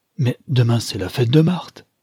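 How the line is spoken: Exclaimed. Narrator (French): s'écria le digne homme

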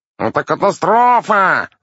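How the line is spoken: Yelled. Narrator (Russian): заорал мастер Флокотона

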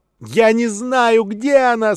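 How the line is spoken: Desperate shout. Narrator (Russian): с отчаянием в голосе выкрикнула Салли

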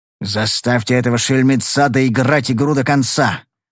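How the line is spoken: Grumbling close in ear. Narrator (Russian): проворчал мне в ухо Огар

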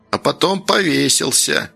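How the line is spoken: Grumbled, old woman. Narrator (Russian): пробурчала баба Валя

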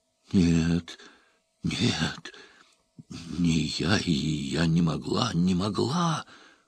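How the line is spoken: Whispered. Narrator (Russian): прошептала она

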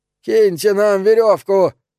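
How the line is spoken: Hoarse shout. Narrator (Russian): хрипло крикнул Андерсон

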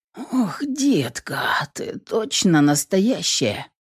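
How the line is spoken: Moan. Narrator (Russian): Простонал

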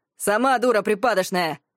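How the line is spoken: Rude interruption. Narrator (Russian): перебил он грубо

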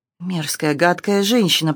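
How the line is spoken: Muttering. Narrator (Russian): пробормотала Джейн

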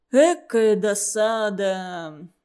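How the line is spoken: Sighed in unison. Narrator (Russian): дружно вздохнули за столом

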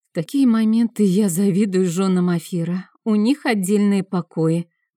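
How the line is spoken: Sighing. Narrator (Russian): вздохнула Сия

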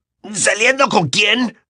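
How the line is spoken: Shout. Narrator (Spanish): gritó

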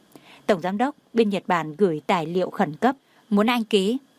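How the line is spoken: Gentle. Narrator (Vietnamese): Đông Anh dịu dàng nói

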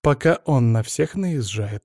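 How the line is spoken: Dry tone. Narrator (Russian): сухо сказала теща

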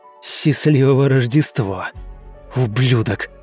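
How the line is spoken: Muttered through gritted teeth. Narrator (Russian): Процедил он сквозь зубы

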